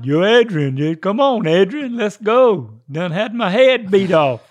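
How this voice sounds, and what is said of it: Sylvester Stallone impression. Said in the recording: “doing a Sylvester Stallone impersonation”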